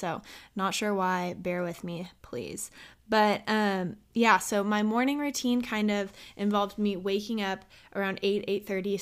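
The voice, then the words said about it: Shaky voice, dry throat. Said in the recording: “my voice is a little shaky also ... my throat has been getting really dry”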